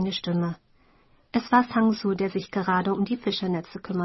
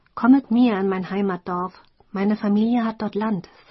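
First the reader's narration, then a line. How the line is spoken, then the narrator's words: Plain. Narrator (German): sagte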